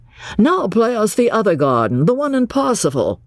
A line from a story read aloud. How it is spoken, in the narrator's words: Cecil, sharing the discontent, called out